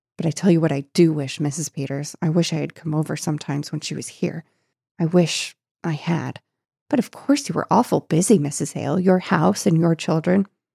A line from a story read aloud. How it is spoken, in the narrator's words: she murmured in a different voice